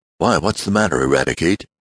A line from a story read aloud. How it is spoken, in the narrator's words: asked Mr